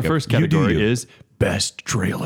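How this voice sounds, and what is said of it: Dramatic movie trailer announcer voice. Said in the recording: “It should be the movie voice.”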